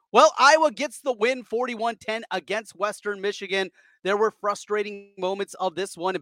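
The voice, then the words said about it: Sick-sounding voice with deep breaths. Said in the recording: “I've been battling a little bit of illness. You might hear it in my voice ... a couple of deep breaths or sighs, that's me still battling some upper respiratory issues”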